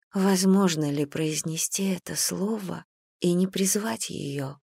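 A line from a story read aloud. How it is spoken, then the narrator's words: Whisper. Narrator (Russian): прошептала Гэм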